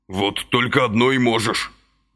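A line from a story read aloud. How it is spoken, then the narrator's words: Angry muffled grumble. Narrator (Russian): злобно заворчал из-под тарелки Василий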